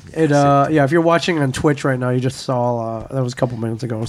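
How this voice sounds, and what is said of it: Rough, strained voice. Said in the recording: “I'm getting over bronchitis. That's why my voice is all fucked up.”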